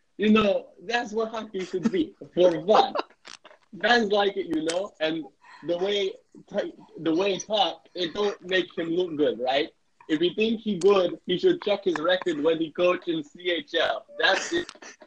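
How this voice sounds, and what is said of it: Put-on Russian accent. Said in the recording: “read this in my best Russian accent”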